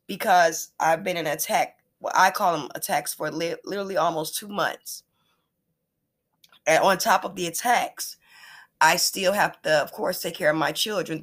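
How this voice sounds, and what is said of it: Rough, scratchy voice. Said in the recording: “my voice sounds so rough and scratchy”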